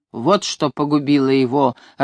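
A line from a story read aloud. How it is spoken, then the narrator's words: Growling. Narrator (Russian): рычал он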